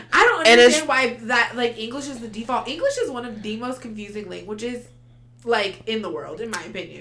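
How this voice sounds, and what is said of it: Non-native English accent. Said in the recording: “I can tell it's your second language ... I have an accent”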